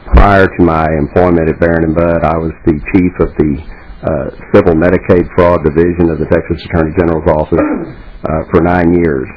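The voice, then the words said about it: Texas accent. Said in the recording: “As you might notice from my accent, I'm from a little farther south of here than Minnesota, from Austin, Texas.”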